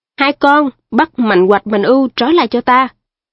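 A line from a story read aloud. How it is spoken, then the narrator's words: Thunderous shout. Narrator (Vietnamese): Phong quát lớn lên như sét nổ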